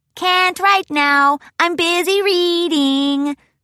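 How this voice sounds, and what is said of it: Sing-songy lilting delivery. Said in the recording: “Spike interrupted, a sing-songy lilt to his delivery.”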